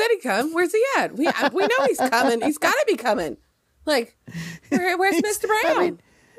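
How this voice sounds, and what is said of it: Usual voice. Nothing is said of it.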